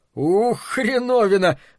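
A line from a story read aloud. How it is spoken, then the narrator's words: Howling laugh, shivering. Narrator (Russian): взвыл он со смехом, весь дрожа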